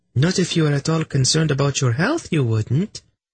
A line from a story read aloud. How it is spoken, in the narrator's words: Zinedra said sweetly